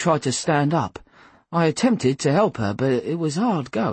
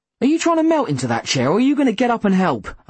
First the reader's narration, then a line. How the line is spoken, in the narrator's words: I snapped